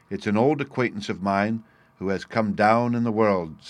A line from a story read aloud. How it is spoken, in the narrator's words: said she